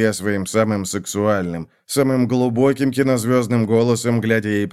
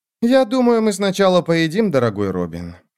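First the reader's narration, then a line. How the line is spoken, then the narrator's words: Sighing. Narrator (Russian): вздохнула она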